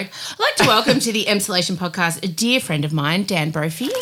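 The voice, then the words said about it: Put-on professional presenter voice. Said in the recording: “Do you like my professional voice? You normally comment when I do a professional voice.”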